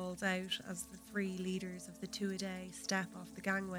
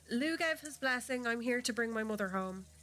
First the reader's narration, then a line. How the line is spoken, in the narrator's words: Brez responds hastily